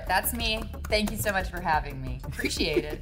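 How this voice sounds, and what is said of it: Put-on American accent, uptight and excited. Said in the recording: “American ... Your accent sounds like someone who was just approved for a bank loan ... This is a really uptight lady who just got approved for a bank loan.”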